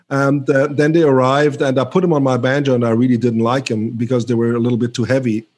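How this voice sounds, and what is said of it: Speaks with a foreign accent. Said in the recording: “you can hear my accent.”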